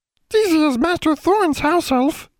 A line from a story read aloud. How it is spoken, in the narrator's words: Deezy replied, in her piping voice